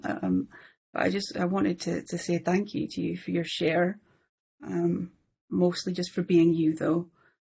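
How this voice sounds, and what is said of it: Emotional, moved voice. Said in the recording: “I'm a bit emotional.”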